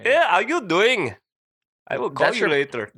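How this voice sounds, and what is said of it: Poor put-on Middle Eastern accent. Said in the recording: “That's your Middle East? ... That's terrible. ... That was a terrible one.”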